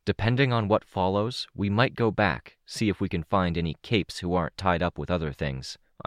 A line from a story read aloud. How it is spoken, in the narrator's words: I said